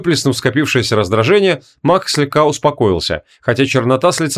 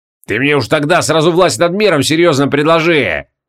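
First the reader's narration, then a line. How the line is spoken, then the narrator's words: Barking shout. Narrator (Russian): рявкнул Криол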